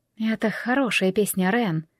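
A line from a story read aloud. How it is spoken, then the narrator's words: Whisper. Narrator (Russian): прошептала Джемма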